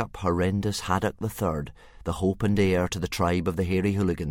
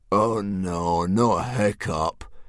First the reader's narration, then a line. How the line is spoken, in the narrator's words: groaned Dog's Breath the Durbrain, and most of the other boys